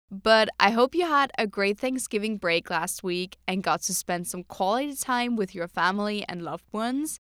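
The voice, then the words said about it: Sore, strained voice. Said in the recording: “As you can probably hear, my voice is a little sore”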